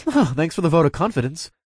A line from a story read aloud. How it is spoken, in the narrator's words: I chuckled